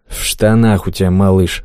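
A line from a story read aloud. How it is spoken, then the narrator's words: Grumbled mutter. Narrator (Russian): буркнул Клёпа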